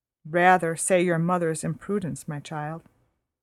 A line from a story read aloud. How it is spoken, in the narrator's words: said Mrs